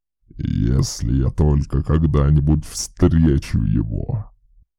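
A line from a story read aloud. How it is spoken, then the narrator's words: Growl. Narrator (Russian): прорычал Брофи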